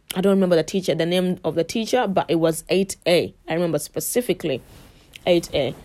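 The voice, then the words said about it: Ugandan English accent. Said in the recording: “I had a fresh accent. I'm sure my accent hasn't gone. I really hope it never does.”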